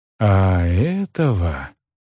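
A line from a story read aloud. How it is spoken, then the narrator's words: Soft. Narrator (Russian): негромко ответила Тирза Грей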